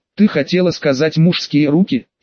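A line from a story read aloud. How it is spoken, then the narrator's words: Sarcastic. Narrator (Russian): ехидно уточнила Иришка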